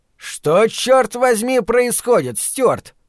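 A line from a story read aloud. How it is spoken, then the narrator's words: Shouting. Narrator (Russian): крикнул Эл Бандл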